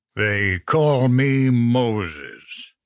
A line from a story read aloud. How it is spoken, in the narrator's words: the ogre drawled